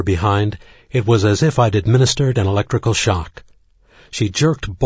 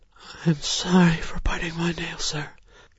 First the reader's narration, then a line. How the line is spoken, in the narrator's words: moaned